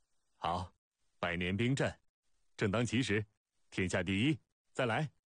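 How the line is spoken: Hearty laughter. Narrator (Chinese): 孟尝君哈哈大笑

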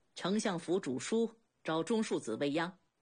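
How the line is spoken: Cold. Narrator (Chinese): 来人冷冷道

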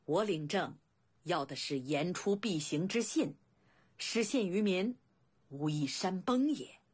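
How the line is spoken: Hearty laughter. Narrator (Chinese): 未央大笑

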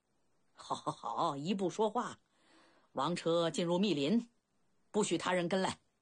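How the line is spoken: Hearty laugh. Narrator (Chinese): 老国王豁达地笑了

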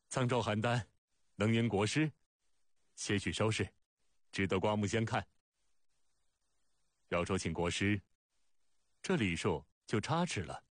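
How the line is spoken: Loud laughter. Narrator (Chinese): 大笑

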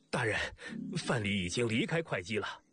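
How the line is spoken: Breathless. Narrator (Chinese): 喘着粗气 说

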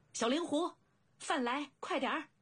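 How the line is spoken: Loud. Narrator (Chinese): 颈间高声道

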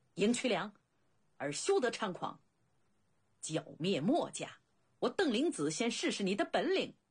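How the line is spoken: Furious bellow. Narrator (Chinese): 邓灵子本来已经感到在秦国丢尽了脸面，此刻恼羞成怒，大喝一声

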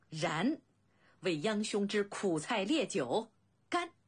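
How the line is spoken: Laughing toast. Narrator (Chinese): 两人大笑

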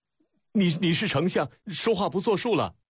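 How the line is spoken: Stunned, angry shout. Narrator (Chinese): 楚使愣怔间黑着脸喊起来

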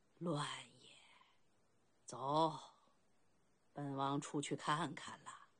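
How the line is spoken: Long sigh. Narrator (Chinese): 长叹一声

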